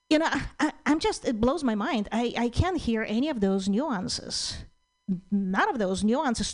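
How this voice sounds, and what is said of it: Speaks with a noticeable accent. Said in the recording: “I love her accent.”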